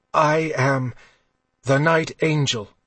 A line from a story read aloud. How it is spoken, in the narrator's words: Kylar said, gasping on the steel through his lung